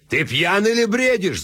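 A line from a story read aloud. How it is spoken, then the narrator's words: Yelling. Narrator (Russian): заорал Кадудаль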